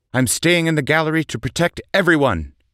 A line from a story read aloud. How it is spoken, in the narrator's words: he blurted out